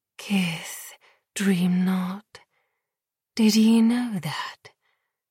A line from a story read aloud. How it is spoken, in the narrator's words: Lily whispered, sticky lips brushing gentle against Dior's